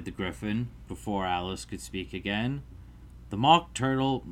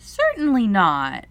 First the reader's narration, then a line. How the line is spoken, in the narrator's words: said Alice indignantly